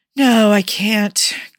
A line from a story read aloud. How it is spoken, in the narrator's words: Clint sighed